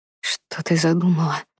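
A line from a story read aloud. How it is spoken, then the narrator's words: Breathed out. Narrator (Russian): выдохнул он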